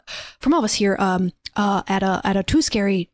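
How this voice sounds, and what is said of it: Usual voice. Nothing is said of it.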